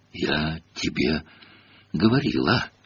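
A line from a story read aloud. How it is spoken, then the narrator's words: Breathless exhale. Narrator (Russian): выдохнула Гермиона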